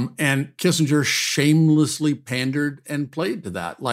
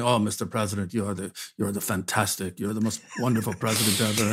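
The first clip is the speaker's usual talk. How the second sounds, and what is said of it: Imitates another person's voice. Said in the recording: “Kissinger impression? ... that was my off the cuff Kissinger impression.”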